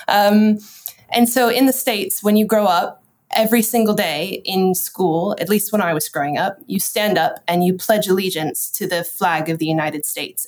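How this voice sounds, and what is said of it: American accent. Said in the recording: “you can probably tell from my accent, I'm from America. I'm not from the UK.”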